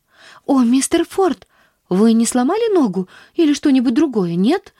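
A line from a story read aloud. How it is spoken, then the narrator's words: Anxious question. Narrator (Russian): взволнованно спросила она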